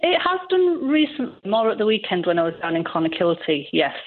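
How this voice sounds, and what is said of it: Strong Yorkshire English accent. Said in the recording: “you have an English accent, I can tell straight away ... Strong Yorkshire accent.”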